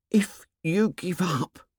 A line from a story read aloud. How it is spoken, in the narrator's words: said Piggy in an appalled whisper